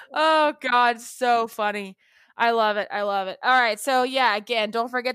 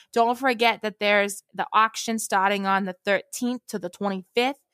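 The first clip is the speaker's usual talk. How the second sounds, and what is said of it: Put-on Boston accent. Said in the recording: “I'm just going to talk in a Boston accent the rest of the time.”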